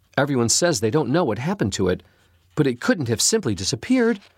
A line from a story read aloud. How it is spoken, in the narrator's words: she exclaimed to Mr